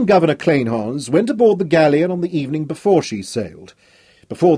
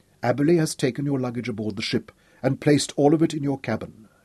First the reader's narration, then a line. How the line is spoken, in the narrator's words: said softly